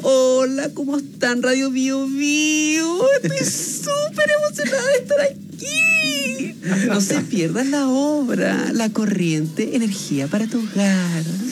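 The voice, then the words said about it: Puppet character voice. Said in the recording (Spanish): “tengo que hacer la voz de la Brisa ... Habla así como así”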